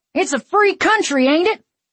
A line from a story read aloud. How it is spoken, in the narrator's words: One of the men shouted